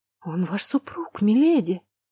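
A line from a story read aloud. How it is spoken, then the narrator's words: Frightened whisper. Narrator (Russian): испуганно прошептала служанка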